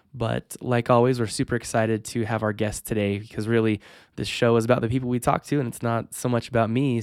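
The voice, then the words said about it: Slightly congested, sick-sounding voice. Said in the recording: “I have a little bit of a cold, so you're going to hear a little bit different of a voice today than you're typically used to.”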